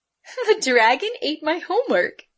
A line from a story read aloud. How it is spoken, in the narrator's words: Amy said and chuckled